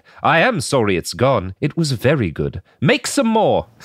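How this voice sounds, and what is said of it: Convincing put-on accent. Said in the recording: “That was first of all, spot on. Great accent.”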